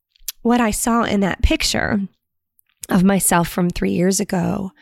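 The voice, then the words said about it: Emotional, voice near tears. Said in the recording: “I'm getting emotional, emotional.”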